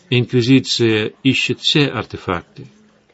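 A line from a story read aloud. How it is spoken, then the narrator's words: Calm reply. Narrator (Russian): спокойно ответил Эдгар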